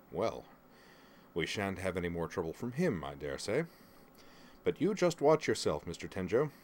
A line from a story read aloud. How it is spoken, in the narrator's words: he chuckled darkly and said